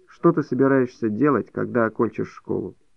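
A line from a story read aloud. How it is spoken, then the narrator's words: Cold question. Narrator (Russian): Максимов холодно спросил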